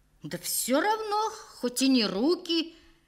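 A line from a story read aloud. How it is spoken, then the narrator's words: Heated, faltering exclamation. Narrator (Russian): Горячо, но уже не так уверенно воскликнул Ватулин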